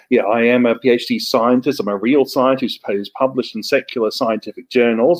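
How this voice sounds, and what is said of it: Australian-New Zealand non-rhotic accent. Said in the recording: “I'm not from this country originally. I'm from New Zealand and Australia originally. I've probably got a hybrid accent of Australian and New Zealand English. These are called non-rhotic dialects. We only pronounce R before a vowel sound, not at the end of a syllable.”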